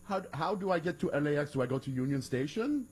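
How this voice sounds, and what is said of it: Put-on generic Iranian accent. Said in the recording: “your Iranian accent? ... my generic. ... Generic.”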